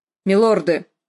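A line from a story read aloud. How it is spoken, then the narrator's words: Barking, echoing. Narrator (Russian): рявкнул он, отголоски загуляли между балками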